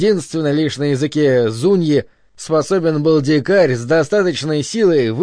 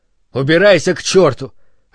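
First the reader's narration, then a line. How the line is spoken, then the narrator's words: Irritated bark behind door. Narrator (Russian): рявкнула раздраженно за дверью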